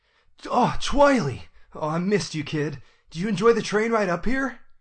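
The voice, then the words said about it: Shining Armor character voice. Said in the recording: “I do the voices. I can do voices like Shining Armor fairly well.”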